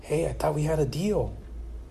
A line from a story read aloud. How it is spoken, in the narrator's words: The groom hissed